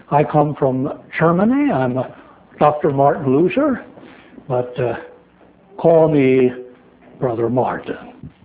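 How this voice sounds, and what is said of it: Put-on German accent in English. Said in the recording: “my native German language ... my bad accent”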